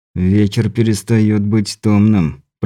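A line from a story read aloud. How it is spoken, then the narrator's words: Through gritted teeth. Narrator (Russian): процедил Андрей сквозь зубы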